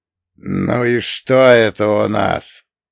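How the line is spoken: Hoarse joyless voice. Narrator (Russian): Сиплый голос далека звучал даже нерадостно

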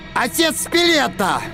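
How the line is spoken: Yell. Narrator (Russian): заорал Торн

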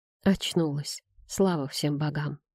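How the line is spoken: Relieved whisper. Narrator (Russian): прошептал он

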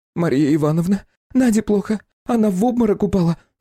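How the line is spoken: Nervous. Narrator (Russian): нервным голосом добавила

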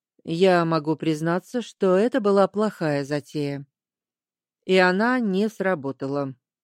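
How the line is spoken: Gloomy reply. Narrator (Russian): мрачно ответил

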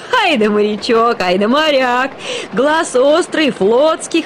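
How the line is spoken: Roaring with laughter. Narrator (Russian): хохотал, вытирая слезы

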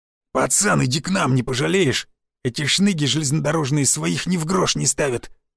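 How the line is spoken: Growl. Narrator (Russian): прорычал Лысый

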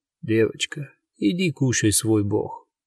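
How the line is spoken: Bored tone. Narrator (Russian): скучным тоном отвечает Адамс

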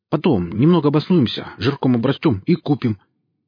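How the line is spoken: Hurried, boyish, naive. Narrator (Russian): говорил по-мальчишески торопливо и наивно

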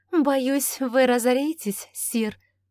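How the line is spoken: Ringing laugh. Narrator (Russian): звонко рассмеялась Августа

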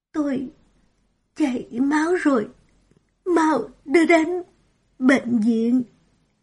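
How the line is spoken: Weak, trembling. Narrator (Vietnamese): Mạch Kỳ yếu ớt, đôi môi run rẩy thốt ra một câu

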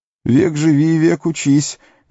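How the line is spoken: Shaky hoarse wheeze. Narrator (Russian): нетвердым голосом просипел Сэм

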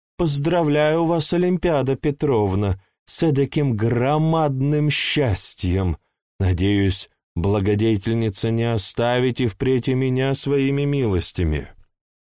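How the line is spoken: Sweet sing-song voice. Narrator (Russian): А Ивановна эдаким сладким голоском запела

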